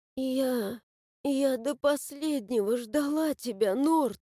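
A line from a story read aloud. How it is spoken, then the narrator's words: Hoarse muttering. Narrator (Russian): Хрипло пробормотала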